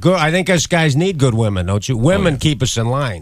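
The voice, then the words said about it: Chicago accent. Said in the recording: “You just got a great Chicago accent”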